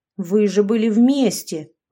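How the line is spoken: Indignant. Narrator (Russian): возмущенно говорил отец

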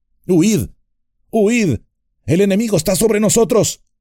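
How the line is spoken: Shouting warning. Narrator (Spanish): Glorfindel gritando

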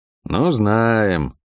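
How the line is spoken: Unenthusiastic drawl. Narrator (Russian): протянул я, не испытывая особого восторга от услышанного

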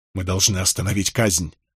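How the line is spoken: Breathless. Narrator (Russian): выдохнул я

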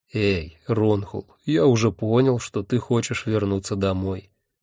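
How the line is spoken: Gentle. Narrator (Russian): мягко сказал Хехельф

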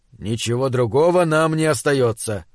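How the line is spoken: Sighing. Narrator (Russian): вздохнул капитан

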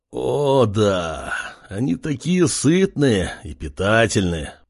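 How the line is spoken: Moaning man. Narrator (Russian): Простонал мужчина

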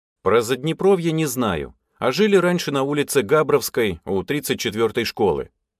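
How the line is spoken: Plain. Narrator (Russian): ответил я

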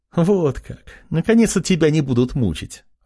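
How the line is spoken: Joyful, smiling mother. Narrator (Russian): радостно заулыбалась мать

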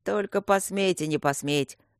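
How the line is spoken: Menacing cough-spoken, irritated. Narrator (Russian): угрожающе прокашлял лорд Дармоншир

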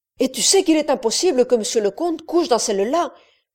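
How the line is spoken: Woman's sharp exclamation. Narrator (French): s'écria vivement la femme

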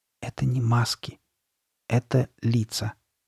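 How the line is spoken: Sad near-whisper. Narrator (Russian): печально, почти шепотом объяснил он

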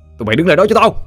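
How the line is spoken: Shout. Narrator (Vietnamese): Anh quát lên

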